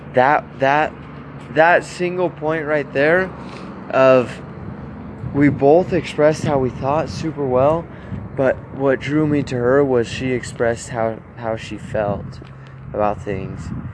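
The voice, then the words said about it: Tired, fading voice. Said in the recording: “I think I'm losing my voice. ... I'm super tired.”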